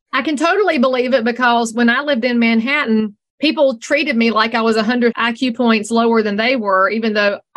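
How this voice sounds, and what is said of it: Noticeable regional accent. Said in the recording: “I love your voice. I love your accent.”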